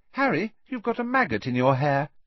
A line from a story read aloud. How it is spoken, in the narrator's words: said Ginny cheerfully